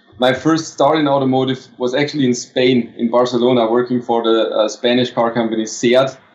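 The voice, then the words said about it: German accent. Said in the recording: “as you can hear on my accent, I'm from Germany originally.”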